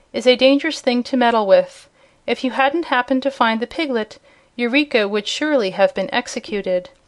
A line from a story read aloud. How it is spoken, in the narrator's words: remarked the Scarecrow with a sigh